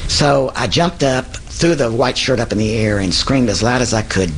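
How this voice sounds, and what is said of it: Oklahoma accent. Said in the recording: “from this Okie accent”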